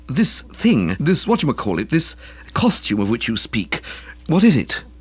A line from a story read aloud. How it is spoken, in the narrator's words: I faltered